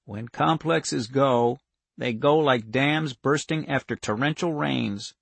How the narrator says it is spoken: Wanda said softly

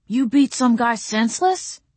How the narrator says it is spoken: Zeb cried

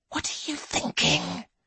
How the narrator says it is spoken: hisses

